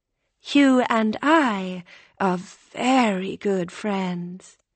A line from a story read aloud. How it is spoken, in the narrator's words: April said, with a kind of purr